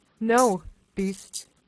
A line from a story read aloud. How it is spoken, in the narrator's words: So she answered in a very firm tone